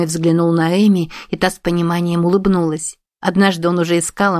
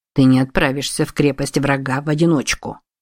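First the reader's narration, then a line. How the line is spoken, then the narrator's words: Growled. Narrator (Russian): прорычал Широ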